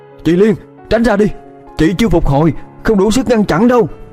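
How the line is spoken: Loud shout. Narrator (Vietnamese): Khải hét lớn

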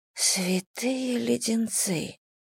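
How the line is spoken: Whisper. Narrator (Russian): прошептала я

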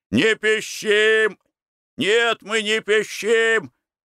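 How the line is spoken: Boys shouting. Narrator (Russian): крикнули пацаны

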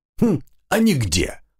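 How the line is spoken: Forest spirit chuckling. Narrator (Russian): хохотнул лесовик

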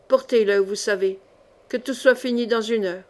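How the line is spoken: Muffled, low voice. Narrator (French): d'une voix sourde

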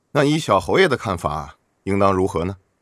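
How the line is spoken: Laughing. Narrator (Chinese): 楚文瑞笑道

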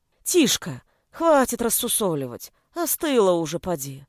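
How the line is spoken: Sighing. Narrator (Russian): Вздохнула Нина

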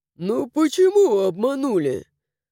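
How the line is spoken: Snorting retort. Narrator (Russian): фыркнул Даррен

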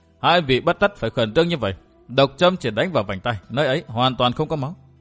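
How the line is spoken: Cold smile. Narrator (Vietnamese): Cười nhạt một hồi lâu, Vân Thiên Nhạc nói

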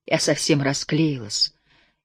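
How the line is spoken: Barely audible speech. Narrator (Russian): еле слышно заговорила

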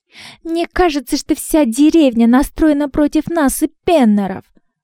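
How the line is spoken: Offended. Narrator (Russian): обиженно проговорила Анна

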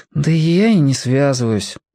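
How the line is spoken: Sighing. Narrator (Russian): вздохнул Тоник

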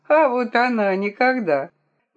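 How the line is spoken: Hearty laughter. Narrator (Russian): Миссис Бартоломью от души рассмеялась

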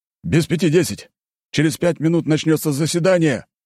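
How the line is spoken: Panicked near shout. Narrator (Russian): едва ли не кричал тот в состоянии паники

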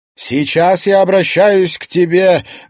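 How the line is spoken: Loud. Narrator (Russian): громко сказала Кадиша

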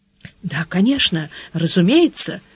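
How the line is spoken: Muttered. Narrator (Russian): пробормотал канцлер

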